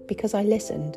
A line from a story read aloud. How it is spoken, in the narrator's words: Rufus calmly responded